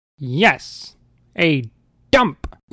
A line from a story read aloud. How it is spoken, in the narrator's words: Unala hollered